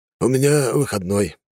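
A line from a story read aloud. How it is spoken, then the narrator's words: Forced, strained words. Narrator (Russian): выдавил Волгомир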